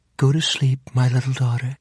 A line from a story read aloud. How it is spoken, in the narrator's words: said the woman sweetly